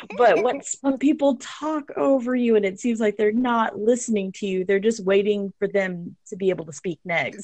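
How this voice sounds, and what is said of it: Texan accent. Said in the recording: “I'm from Texas originally... I like that accent”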